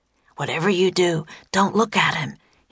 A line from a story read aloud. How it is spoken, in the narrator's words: he whispered to Annie